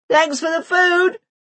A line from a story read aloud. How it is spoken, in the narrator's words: the children roar from an indefinable part of the flat